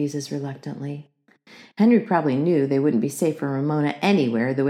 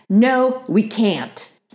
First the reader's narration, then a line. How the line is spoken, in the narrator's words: snapped Beezus, who could not remember when she had been so annoyed with Ramona